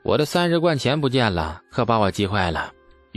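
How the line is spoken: Sighing laugh. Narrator (Chinese): 李素笑着叹气

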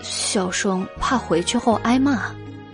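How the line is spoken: Quiet. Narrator (Chinese): 袁耀小声的道

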